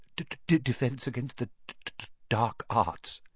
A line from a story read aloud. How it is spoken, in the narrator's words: muttered Professor Quirrell, as though he'd rather not think about it